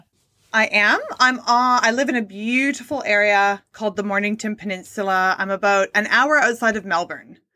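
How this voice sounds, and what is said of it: Hybrid Canadian-Australian accent. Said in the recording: “her hybrid Canadian-Australian accent”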